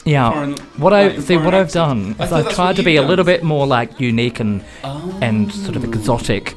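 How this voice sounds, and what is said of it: Australian-British hybrid accent. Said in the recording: “you'd got this voice ... I've gone for an Australian accent with a British twist ... a weird Australian English hybrid”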